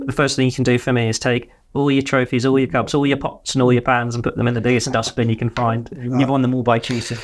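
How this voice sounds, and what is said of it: Awful Brian Clough impression. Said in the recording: “That's a very awful impression... you did it in an accent”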